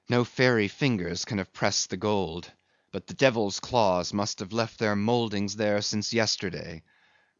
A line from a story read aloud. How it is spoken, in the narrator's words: murmured Starbuck to himself